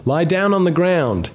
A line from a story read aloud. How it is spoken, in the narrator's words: said, yelling to be heard over the train's whining engine